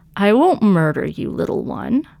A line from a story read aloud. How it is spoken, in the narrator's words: Catacomb purred